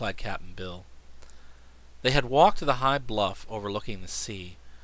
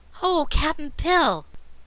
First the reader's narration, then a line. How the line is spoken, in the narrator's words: exclaimed